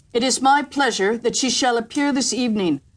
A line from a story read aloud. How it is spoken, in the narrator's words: said the emperor